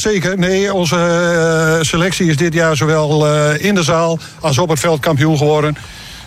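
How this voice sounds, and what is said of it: Groningen regional Dutch accent. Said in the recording (Dutch): “Je komt zelf vanuit Groningenland te horen aan het accent.”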